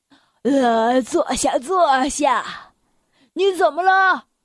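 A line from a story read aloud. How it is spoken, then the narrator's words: Breathless question. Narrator (Chinese): 圆胖医生 喘着气问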